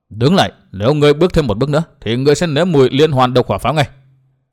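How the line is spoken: Cold warning. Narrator (Vietnamese): Dịch Thiên Hành lạnh lùng bảo

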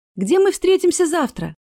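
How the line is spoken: Shout after someone. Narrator (Russian): крикнула вслед Астра

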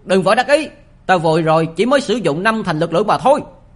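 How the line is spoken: Humiliated angry shout. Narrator (Vietnamese): An Tắc Ni Á đã bị mất hết mặt mũi, gã quát lên

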